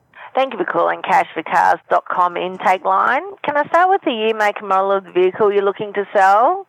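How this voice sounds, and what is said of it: Noticeable accent. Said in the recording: “you got quite the accent there.”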